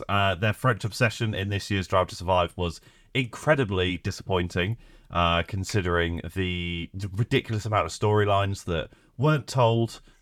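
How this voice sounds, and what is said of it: Sick, slightly altered voice. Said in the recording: “I'm poorly ... my voice is a little bit different, um, and I may have to cough randomly”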